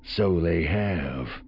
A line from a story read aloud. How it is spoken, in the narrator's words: Samacro murmured